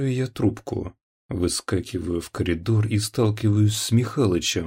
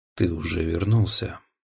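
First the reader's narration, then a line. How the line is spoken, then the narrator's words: Flat colorless question. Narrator (Russian): спрашивает он бесцветным голосом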